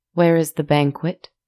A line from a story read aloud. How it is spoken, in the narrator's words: she asked